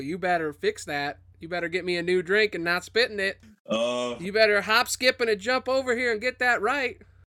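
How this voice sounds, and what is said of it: Put-on Southern US accent. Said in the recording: “I almost wish I made him southern this whole time ... I could do a southern accent”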